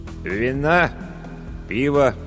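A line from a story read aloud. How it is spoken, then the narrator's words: Dull, dejected question. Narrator (Russian): уныло осведомился корчмарь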